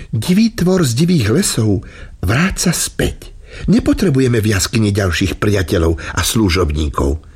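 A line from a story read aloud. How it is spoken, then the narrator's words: Woman, said smiling. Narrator (Slovak): Žena sa usmiala a povedala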